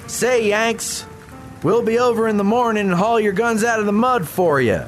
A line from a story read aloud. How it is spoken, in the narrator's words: One Confederate yelled across the river